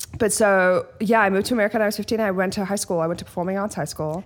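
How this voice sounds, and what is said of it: Faint Australian accent. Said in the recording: “You were born in Australia. ... It comes and goes in the most amazing way. ... I think my accent is literally the grossest thing in the world.”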